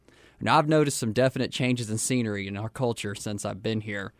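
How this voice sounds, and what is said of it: Texan accent. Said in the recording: “you could probably tell from my accent anyhow, that I'm not from around here. I was raised in Texas.”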